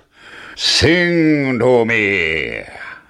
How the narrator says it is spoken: roared the giant

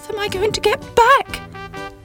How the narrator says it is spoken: cried Sybil

